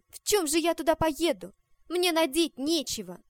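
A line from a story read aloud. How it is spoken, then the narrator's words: Irritated. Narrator (Russian): сказала с раздражением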